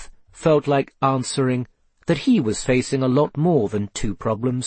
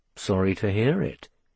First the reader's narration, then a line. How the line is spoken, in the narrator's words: he muttered